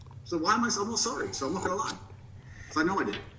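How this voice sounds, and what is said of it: Mixed American and British accent. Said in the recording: “I like the American British accent mix.”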